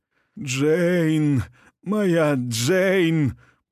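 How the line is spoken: Dying wheeze. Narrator (Russian): прохрипел он

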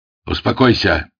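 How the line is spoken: Barked shout. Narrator (Russian): гаркнул на него Ермилов

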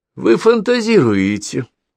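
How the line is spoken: Casual, forced strange laugh. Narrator (Russian): сказала она небрежно и даже заставила себя засмеяться своим странным смехом

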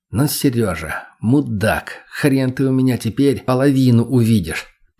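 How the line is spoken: Muttering. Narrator (Russian): Периодически бормотал я

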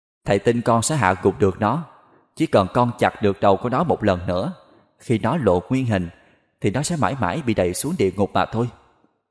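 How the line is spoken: Gentle, smiling. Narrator (Vietnamese): Võ Sư Thắng mỉm cười, bác ta nhẹ nhàng nói

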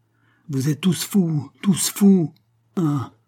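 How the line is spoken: Stammering. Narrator (French): balbutia Madame Boiveau

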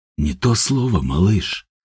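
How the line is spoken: Mumbling. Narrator (Russian): пробормотал Степан

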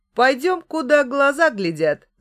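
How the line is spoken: Laughing. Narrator (Russian): засмеялся Микиш

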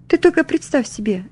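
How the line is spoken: Exclaimed. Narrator (Russian): воскликнула она

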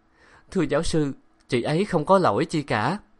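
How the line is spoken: Hesitant, tearful. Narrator (Vietnamese): ngập ngừng nói

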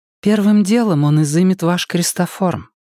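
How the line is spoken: Gentle explanation. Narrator (Russian): ласково пояснила Энея

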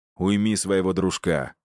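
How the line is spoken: Cold advice. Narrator (Russian): холодно посоветовал я Игнату

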